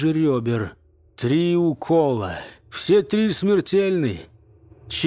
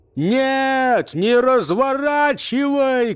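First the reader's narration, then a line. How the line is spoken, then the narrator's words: Shout. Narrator (Russian): крикнул Мирабо водителю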